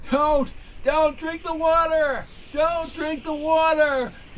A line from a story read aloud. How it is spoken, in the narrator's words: yelled